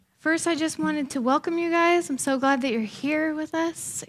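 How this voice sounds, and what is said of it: Slightly out of breath. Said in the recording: “I'm a little out of breath because I just ran upstairs.”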